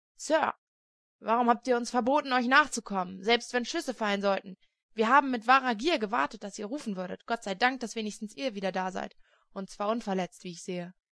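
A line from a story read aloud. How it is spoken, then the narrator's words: Reproachful exclamation. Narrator (German): Dick Stone rief in vorwurfsvollem Tone aus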